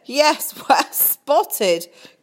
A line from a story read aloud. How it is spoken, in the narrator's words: cried Sophie